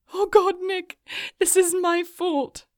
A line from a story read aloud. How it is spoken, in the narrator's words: Morgan sobbed